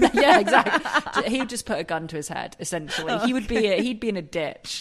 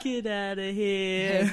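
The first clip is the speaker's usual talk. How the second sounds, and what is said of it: Impression of Tony Soprano's voice. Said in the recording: “That's my impression.”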